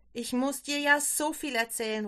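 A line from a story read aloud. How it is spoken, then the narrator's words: Excited call. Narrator (German): ruft Barbara begeistert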